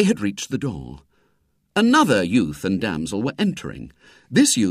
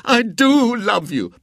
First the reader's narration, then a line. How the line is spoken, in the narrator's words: protested the youth wildly